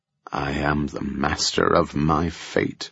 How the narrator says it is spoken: Beau muttered

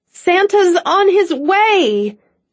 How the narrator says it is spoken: Cassie called out, doing her best to sound enthusiastic, although she was absolutely terrified

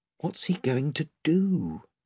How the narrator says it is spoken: whispered Eustace to Edmund

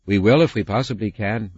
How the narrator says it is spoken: my mum said

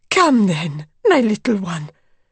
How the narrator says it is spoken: cried Madame X

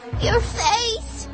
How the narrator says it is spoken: he cried

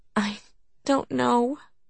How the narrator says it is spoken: he sighed

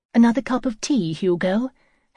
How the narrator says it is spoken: Hannah asked brightly

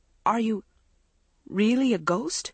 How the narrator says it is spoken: Maggie choked out

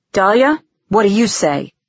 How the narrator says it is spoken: he asked harshly

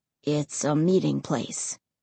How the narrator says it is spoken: Ray said quietly

